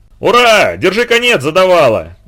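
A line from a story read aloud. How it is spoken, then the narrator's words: Shouting. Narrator (Russian): закричал Женька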